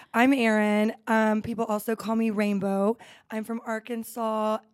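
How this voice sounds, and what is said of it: Slight vocal fry, raspy voice. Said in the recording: “we have a little bit of vocal fry, but we love it. A little rasp.”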